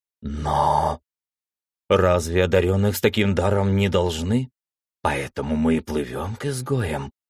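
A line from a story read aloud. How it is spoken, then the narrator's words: Whispering. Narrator (Russian): шепотом сообщила наследница Семи Ветров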